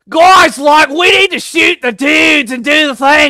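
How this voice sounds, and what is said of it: Put-on grating Australian accent. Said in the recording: “you really went for the accent with that. That was wonderful ... we can make fun of the Aussies a little bit ... the most grating Australian accent”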